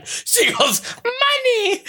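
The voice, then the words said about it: Baby-like voice. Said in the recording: “baby voice? The way you say it is almost like a baby saying mommy.”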